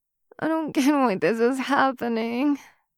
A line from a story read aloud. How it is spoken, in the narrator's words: she whines